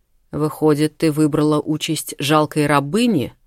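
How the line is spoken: Angry warrior through teeth. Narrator (Russian): зло процедил воин

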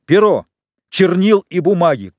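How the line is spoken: Shouting. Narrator (Russian): крикнул в свою очередь Фернан

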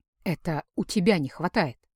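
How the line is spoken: Calm. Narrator (Russian): спокойно ответил он

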